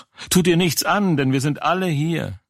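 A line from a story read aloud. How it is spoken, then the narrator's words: Loud call. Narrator (German): Paulus aber rief laut und sprach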